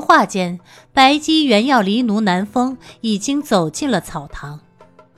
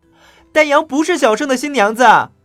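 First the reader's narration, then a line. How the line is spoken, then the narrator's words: Loud retort. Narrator (Chinese): 袁耀大声的反驳道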